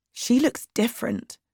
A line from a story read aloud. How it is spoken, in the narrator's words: said quietly